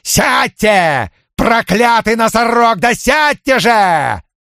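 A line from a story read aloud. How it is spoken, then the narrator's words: Yelling. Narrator (Russian): заорал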